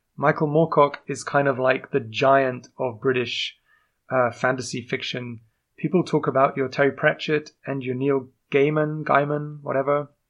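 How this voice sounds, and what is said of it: Unusual English accent. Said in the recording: “I am indeed English... my strange accent”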